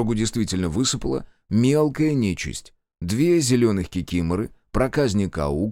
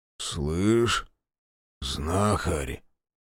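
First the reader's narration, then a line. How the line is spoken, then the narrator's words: Strange altered voice. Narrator (Russian): Не своим голосом спросил из машины Жигалов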